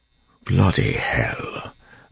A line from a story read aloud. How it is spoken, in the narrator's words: Breeze muttered